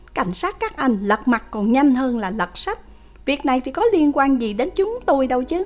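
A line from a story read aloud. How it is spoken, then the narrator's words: Loud and angry. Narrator (Vietnamese): Vương Bất Tài tức giận lớn tiếng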